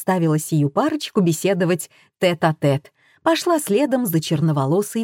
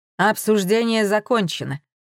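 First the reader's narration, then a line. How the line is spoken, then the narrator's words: Grim declaration. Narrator (Russian): мрачно заявил Варламов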